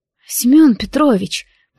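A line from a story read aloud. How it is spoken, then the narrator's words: Dazed mumble. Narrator (Russian): пробормотала сквозь туман, окутывающий разум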